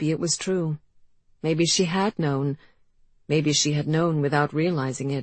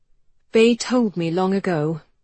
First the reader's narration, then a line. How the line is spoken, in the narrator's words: Georgie lied, fighting to keep her voice level